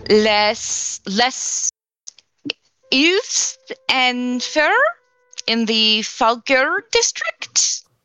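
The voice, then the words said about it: Attempted French accent. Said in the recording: “that was a perfect accent.”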